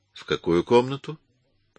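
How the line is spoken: Plain. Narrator (Russian): спросил Эмис

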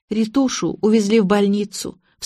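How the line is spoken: Sobbing. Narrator (Russian): всхлипнула Лина

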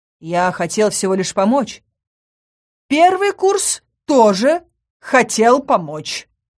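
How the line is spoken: Snide remark. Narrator (Russian): ехидно заметил магистр

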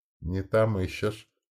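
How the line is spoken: Gentle prompting. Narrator (Russian): мягко подсказал Солос

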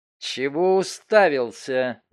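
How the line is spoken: Angry hiss. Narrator (Russian): злобно прошипела моя жена

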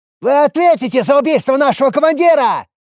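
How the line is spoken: Frightened yelling. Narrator (Russian): Орали скорее от страха, нежели стараясь запугать

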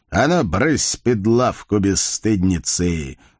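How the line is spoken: Mock-stern playful bark. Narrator (Russian): нарочито грозно рявкнул Байстрюк, хотя глаза его смеялись

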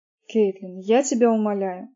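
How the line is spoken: Irritated. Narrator (Russian): раздраженно сказала Джойс

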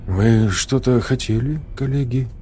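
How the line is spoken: Calm, matter-of-fact. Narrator (Russian): Голос Вадима прозвучал спокойно и буднично

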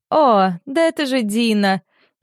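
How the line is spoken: Giggling reply. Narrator (Russian): хихикая, отвечает Дакота

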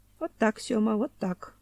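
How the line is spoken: Sighing. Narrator (Russian): вздохнул бывший завлап

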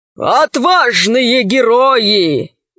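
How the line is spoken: Admiral's muffled voice. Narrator (Russian): голос адмирала звучал глухо

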